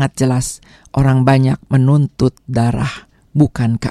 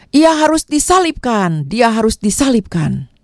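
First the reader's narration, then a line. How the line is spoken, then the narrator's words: Crowd crying out in unison. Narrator (Indonesian): Sekali lagi dengan serentak orang banyak berseru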